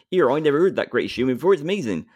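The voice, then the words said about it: Stereotyped Bristolian West Country accent. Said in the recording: “I apologise to all the Bristolians that might be listening to this. ... I'm from the West Country. I'm allowed to stereotype the accent or one of the accents.”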